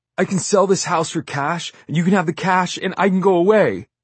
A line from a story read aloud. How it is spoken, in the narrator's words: he sobs